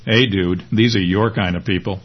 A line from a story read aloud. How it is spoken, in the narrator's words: Ed laughs and in a low voice says